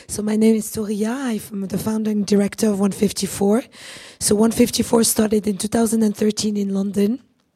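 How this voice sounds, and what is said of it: Rough, husky, strained voice. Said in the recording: “My voice is completely gone ... this rocky, husky voice, but it's not done on purpose”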